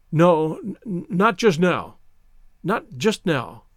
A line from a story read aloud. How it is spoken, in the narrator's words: stammered